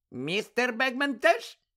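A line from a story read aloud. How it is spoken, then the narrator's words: Squeaking. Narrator (Ukrainian): запищала Вінкі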